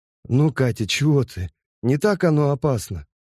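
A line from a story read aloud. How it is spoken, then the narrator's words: Impatient yet tender. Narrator (Russian): нетерпеливо и ласково проговорил литейщик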